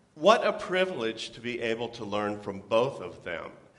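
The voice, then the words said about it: Speaks with a noticeable accent. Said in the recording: “this unknown entity with an accent”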